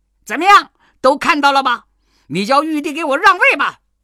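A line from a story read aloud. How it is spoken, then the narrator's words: Shouting. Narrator (Chinese): 悟空对佛祖叫道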